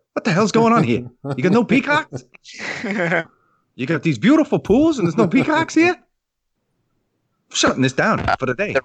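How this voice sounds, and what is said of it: Film producer character voice. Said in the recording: “That's my film producer voice impression.”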